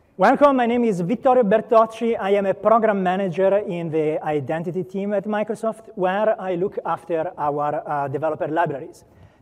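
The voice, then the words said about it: Speaker's own noticeable accent. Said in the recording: “depending on how you react to my accent”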